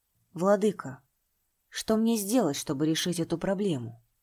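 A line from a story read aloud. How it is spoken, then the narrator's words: Sigh. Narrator (Russian): Шан Ваньнянь вздохнул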